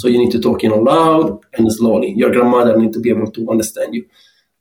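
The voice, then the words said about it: Speaks with a noticeable accent. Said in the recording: “with my accent, sometimes it's difficult to understand me”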